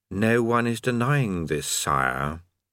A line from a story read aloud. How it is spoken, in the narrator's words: his voice, which said calmly